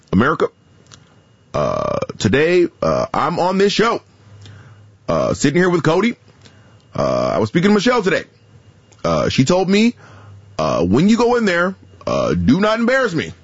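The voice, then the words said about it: Imitates another person's voice. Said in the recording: “I have a pretty decent Barack Obama ... That was pretty good ... The Obama was the good one.”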